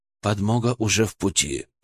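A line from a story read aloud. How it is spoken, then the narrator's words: Whisper. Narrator (Russian): прошептал он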